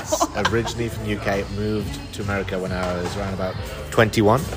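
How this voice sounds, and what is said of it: British accent. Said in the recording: “that fantastic accent means he was not from here originally”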